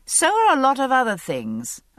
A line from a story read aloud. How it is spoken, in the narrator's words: I said dryly